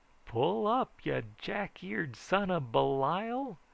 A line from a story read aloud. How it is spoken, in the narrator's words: howled Brother Rembrandt